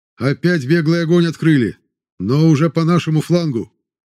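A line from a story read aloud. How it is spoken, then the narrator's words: Shouting over gunfire. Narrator (Russian): прокричал Воронцов, стараясь перекричать звуки выстрелов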